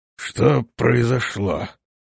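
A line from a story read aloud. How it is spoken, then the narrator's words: Hoarse question. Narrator (Russian): спросил он, хрипя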